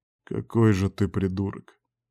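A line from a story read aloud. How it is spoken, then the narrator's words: Tired. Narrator (Russian): устало ответил ему шеф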